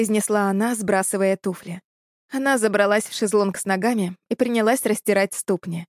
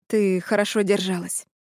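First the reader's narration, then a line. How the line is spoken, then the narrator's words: Quiet. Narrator (Russian): негромко сказал он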